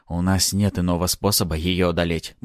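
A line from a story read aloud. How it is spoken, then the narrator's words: Inner mutter. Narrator (Russian): мысленно пробормотал я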